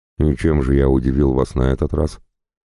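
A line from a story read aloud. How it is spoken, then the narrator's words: Asked calmly. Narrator (Russian): спокойно спросил я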